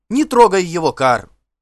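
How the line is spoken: Sharp shout. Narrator (Russian): прикрикнула Далла

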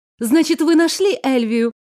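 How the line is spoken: Joyful exclamation. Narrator (Russian): Радостно воскликнула я

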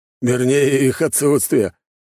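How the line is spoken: Laughing without pretension. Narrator (Russian): засмеялся Глеб, но совершенно без претензии

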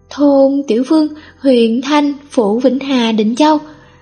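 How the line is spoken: Stammering answer. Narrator (Vietnamese): Du Nương đòi người lắp bắp trả lời

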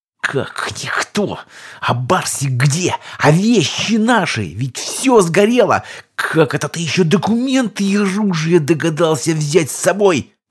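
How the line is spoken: Hissed. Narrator (Russian): прошипела королева клинков

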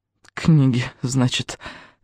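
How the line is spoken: Absent-minded mumble. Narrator (Russian): рассеянно пробормотала Патрисия

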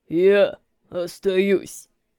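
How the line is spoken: Sudden deep bass. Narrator (Russian): Внезапно пробасил Волков

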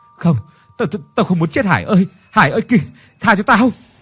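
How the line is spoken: Terrified screaming. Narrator (Vietnamese): Tuấn kinh hãi mà gào thét

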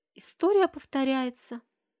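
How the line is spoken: Mother's sad statement. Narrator (Russian): грустно констатирует мать

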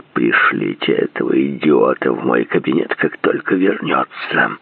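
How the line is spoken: Hissed. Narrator (Russian): Прошипел он

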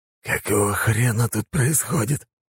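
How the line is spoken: Losing-composure hiss. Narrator (Russian): прошипел Айвин, явно теряя самообладание

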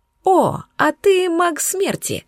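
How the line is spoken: Joyful discovery. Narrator (Russian): радостно поделилась я своим открытием

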